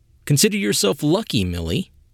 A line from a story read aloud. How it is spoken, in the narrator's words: said